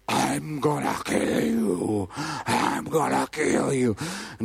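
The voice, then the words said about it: Deep menacing voice. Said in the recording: “this deep voice,”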